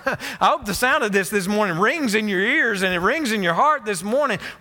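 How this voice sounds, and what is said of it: Yelling preacher. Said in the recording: “because I'm yelling.”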